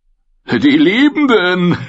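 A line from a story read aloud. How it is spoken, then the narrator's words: Loud sigh. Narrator (German): seufzte Shackwell laut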